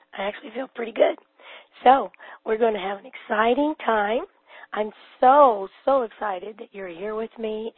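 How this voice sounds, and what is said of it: Hoarse, laryngitic voice. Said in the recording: “clearly I still have laryngitis, but I don't feel near as bad as I sound ... even though I sound different”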